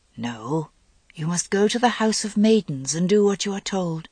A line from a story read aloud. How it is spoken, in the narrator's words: Morgaine said very gently